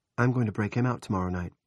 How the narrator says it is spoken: Jackie said, more calmly than she felt

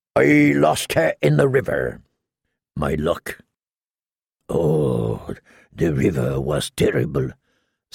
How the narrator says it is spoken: Salador-san said solemnly

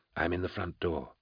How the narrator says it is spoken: Thonius whispered into his concealed vox mic

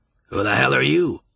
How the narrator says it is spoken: said gruffly

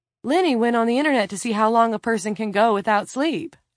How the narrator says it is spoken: Lila said brightly

